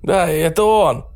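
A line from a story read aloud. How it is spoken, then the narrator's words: Hoarse voice from afar. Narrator (Russian): хрипленько донеслось из окна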